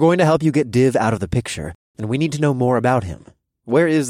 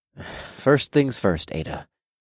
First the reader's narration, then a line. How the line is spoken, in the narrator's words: I sighed